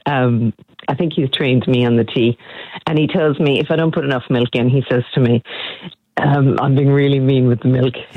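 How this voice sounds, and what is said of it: Irish accent. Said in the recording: “beautiful Irish accent”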